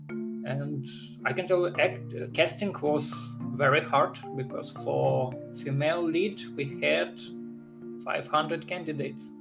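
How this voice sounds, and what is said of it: Ukrainian accent in English. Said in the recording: “if you can guess by my accent, I'm not from United States. I'm actually came from Ukraine.”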